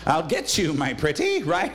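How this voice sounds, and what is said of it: Wicked Witch of the West impression. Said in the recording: “your best Wicked Witch impression”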